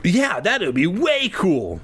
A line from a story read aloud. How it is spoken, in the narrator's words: Lefty exclaimed